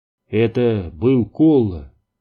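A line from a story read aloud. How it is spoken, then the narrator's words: Calm. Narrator (Russian): спокойно сказал он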